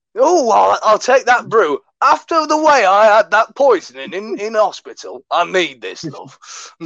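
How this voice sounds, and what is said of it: Put-on Yorkshire accent. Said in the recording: “I sound like a Yorkshire man when I'm from fucking Oklahoma”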